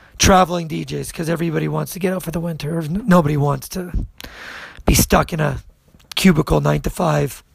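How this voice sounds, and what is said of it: Hoarse voice. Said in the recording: “my voice is a little fucking hoarse,”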